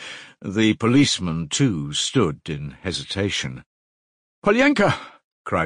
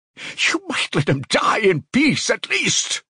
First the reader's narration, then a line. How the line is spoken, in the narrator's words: shouted